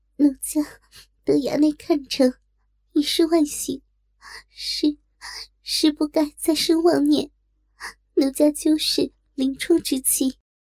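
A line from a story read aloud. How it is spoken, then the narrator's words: Shy crying. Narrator (Chinese): 羞哭道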